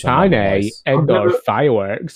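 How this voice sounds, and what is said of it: Put-on camp accent. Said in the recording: “That's like my gay camp accent”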